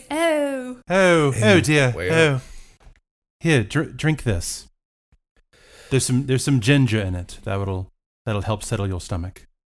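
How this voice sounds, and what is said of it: Put-on British accent. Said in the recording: “how do you do British accent?”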